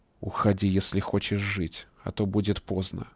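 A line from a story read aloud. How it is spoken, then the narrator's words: Whispered in ear. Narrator (Russian): прошептал на ухо Ильяс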